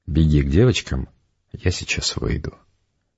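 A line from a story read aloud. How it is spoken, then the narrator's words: Plain. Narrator (Russian): сказала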